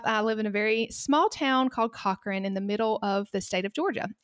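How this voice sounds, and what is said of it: Southern US accent. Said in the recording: “I'm from the South. ... I have a great accent, and this is just how I talk all the time.”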